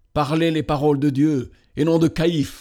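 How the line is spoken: Exclaimed. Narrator (French): s'écria-t-il

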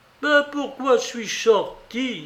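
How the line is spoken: Anguished cry. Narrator (French): s'écria celle-ci en se tordant les bras

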